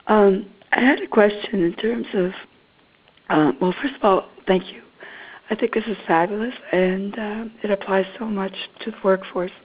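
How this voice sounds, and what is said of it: Voice slightly off from a cold. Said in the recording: “I have a cold, so my voice is a little off.”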